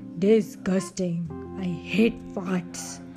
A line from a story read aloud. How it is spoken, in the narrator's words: grumbled the troll